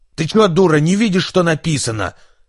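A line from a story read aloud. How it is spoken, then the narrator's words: Sudden yell. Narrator (Russian): Внезапно заорал на женщину Захария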